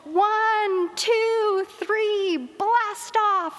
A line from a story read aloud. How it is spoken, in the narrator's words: yelled